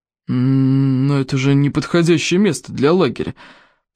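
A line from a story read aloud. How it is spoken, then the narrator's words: Grumbling, breaking off. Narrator (Russian): проворчал Стоик, но вдруг умолк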